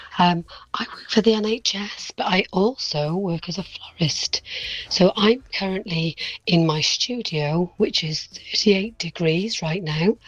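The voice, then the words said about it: Hoarse, strained voice. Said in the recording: “I've lost my voice because I've got terrible hay fever”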